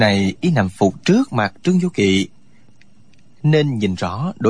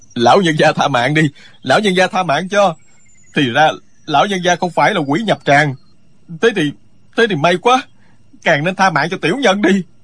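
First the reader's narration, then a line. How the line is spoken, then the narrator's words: Loud terrified pleading. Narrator (Vietnamese): Người kia toàn thân tê dại, lớn tiếng van xin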